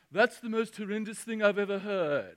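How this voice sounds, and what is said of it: Put-on British accent. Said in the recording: “It's the best British accent I got.”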